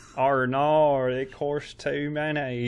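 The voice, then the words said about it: Slow put-on Australian accent. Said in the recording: “That was a pretty solid Bluey... The cadence of speech... I was just trying to really slowly get through my Australian impression, which is not good”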